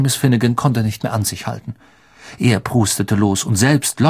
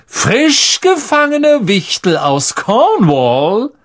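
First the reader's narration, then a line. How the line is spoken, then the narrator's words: Theatrical voice. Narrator (German): sagte er mit theatralischer Stimme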